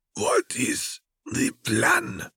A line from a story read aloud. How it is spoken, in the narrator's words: Fair rasped